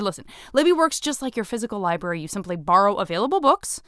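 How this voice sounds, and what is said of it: Usual voice. Nothing is said of it.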